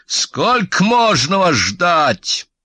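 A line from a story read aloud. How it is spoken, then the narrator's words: Menacing bark. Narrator (Russian): грозный Битты рявкнул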